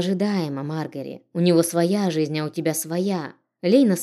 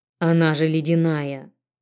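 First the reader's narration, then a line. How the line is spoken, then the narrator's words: Male voice. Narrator (Russian): Донесся мужской голос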